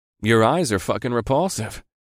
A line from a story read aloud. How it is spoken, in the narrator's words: I told the beast in my most conversational voice